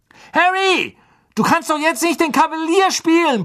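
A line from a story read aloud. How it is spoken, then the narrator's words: Blustering shout. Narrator (German): polterte Wood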